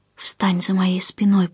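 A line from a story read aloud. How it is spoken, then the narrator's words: Whisper. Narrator (Russian): прошептала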